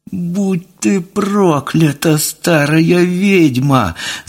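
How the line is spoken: Whining. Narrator (Russian): заскулил Тюря

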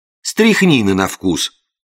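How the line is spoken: Indignant. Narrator (Russian): возмущенно продолжил я

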